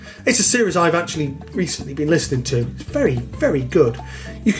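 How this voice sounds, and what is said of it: Usual voice. Nothing is said of it.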